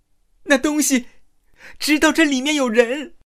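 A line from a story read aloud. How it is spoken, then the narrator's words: Voice shaking with fear. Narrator (Chinese): 时尚女孩声音因恐惧而变调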